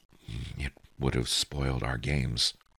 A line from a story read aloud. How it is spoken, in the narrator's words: mumbled